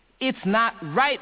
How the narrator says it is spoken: they shouted

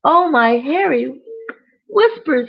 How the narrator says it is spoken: cried Udder

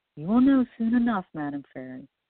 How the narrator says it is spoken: he replied with a sigh

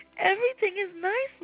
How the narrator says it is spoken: Molly cried out

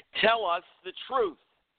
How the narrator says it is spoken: man shouted in a demanding tone of voice

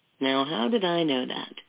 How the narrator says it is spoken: He said with a silky chuckle

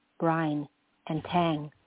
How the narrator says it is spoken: I murmured back

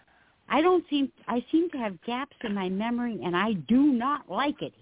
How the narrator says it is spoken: he yelled

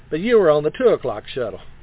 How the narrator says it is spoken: the captain said dryly

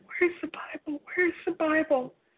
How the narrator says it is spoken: I said frantically

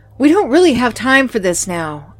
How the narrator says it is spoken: I yelled

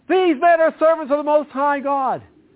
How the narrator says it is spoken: this girl would suddenly shout out

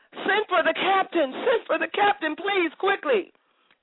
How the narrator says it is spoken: Then someone yelled

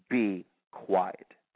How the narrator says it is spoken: said Jesus sternly

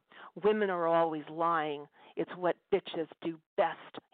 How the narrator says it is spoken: yelled in an insane voice

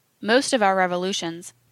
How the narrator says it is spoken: he said

